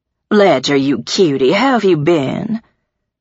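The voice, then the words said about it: Rich voice, slight southern drawl. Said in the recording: “Her voice was rich and had the slight drawl of a southern accent”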